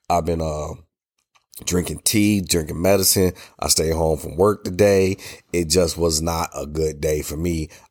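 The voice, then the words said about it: Congested, stuffy sick voice. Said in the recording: “My voice is bad. I'm stuffy. I'm sneezy. I'm a little runny. I'm a cough.”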